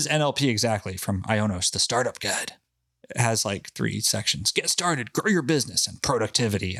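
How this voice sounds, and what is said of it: Usual voice. Nothing is said of it.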